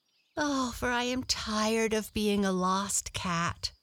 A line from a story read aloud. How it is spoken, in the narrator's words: sighed Blackie